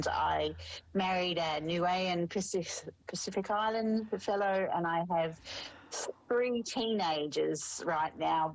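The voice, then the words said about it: Australian accent. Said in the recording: “I am Australian, if you haven't picked up the twang just yet”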